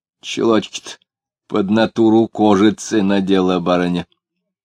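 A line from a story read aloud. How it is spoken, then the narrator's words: Fairly loud. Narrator (Russian): сказал довольно громко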